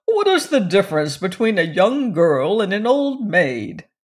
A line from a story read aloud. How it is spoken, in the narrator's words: chuckled